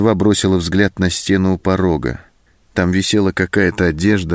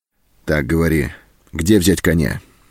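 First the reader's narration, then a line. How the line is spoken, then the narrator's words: Stern question. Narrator (Russian): строго спросил он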